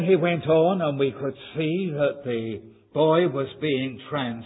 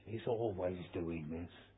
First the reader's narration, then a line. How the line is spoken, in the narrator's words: he whispered to us